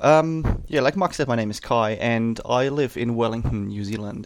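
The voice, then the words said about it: German English accent with Kiwi flavor. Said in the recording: “that weird accent ... I'm actually from Germany ... that interesting mix of German English with a Kiwi flavor”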